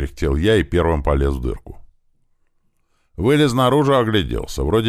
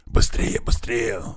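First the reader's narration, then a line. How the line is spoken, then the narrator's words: Hissing. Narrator (Russian): зашипел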